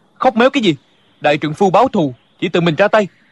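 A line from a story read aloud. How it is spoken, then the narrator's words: Angry. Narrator (Vietnamese): Địch dân tức giận nói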